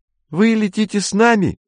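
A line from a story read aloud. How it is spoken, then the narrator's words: Squeak. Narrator (Russian): пропищала Марина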